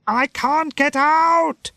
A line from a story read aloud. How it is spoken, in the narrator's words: he shouted